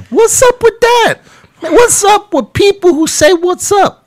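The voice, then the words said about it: Imitates a Black man's voice. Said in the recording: “that is a really good black impression. That's really good... it's pretty good. I thought it was a black guy in the room with me for a second.”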